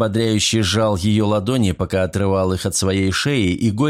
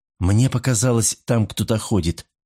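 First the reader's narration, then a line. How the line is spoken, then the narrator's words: Whisper. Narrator (Russian): шепнула она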